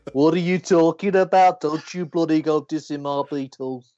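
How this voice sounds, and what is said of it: Imitates another person's voice. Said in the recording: “That is exactly how it would go. ... Mr. Craig, that was.”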